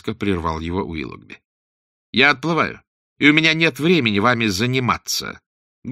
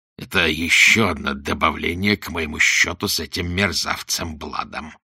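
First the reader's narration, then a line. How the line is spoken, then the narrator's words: Through clenched teeth. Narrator (Russian): процедил он сквозь зубы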